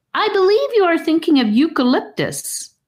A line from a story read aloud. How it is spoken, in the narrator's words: Charlie shouted up to Gabe